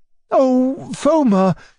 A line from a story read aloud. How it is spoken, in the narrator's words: cried my uncle in a fluster